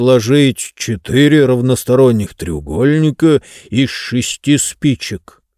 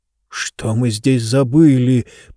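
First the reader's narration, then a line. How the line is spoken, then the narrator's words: Gendarme's whisper. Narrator (Russian): прошептал кто-то из жандармов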